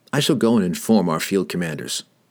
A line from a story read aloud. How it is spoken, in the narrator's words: he said